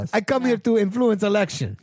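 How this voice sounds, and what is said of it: Put-on Russian accent. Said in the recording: “she's like Russian ... talk Russian ... Russian accent”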